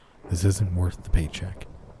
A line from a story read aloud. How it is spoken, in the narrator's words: trembling, muttering to themselves